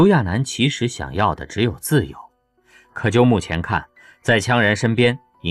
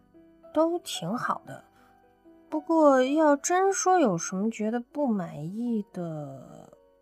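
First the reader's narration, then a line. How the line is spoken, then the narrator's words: Dry-mouthed quiet mumble. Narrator (Chinese): 刘亚楠被问得口干舌燥的，最后他嘀嘀咕咕的小声提了一句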